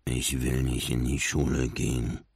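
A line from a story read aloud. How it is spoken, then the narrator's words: Mumbled. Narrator (German): nuschelte Marlin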